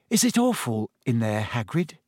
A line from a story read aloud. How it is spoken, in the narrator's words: Hermione said timidly